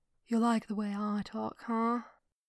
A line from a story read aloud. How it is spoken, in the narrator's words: He whispered into Thrawn's ear, making it a point to drawl the words